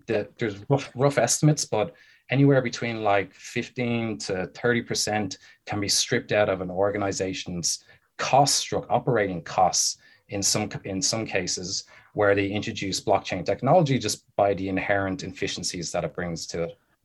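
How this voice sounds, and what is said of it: Irish brogue accent. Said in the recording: “You have the brogue. You're originally from Scotland, Ireland.”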